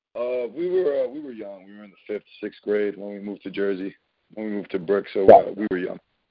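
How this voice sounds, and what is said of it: New Jersey accent. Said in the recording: “by your accent. You're from what, North Central New Jersey?”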